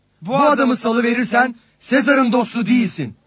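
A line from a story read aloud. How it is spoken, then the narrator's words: Crowd shouting. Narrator (Turkish): diye bağırıştılar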